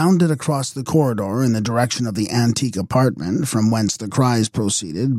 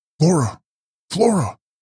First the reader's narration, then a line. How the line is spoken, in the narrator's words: he cried